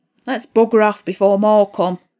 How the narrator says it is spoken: Pat grunted

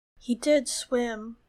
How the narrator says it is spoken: said Edmure solemnly

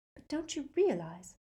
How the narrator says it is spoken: whispered Hermione

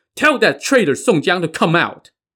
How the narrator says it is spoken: shouted

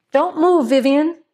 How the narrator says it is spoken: said, gasping

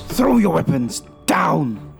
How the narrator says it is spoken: He shouts at the soldiers

